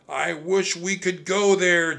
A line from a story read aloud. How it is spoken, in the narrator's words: Jack shouted